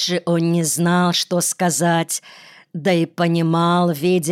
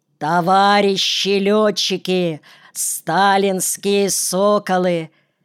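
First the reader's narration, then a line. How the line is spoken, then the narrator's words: Oratorical shout. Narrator (Russian): крикнул, как с трибуны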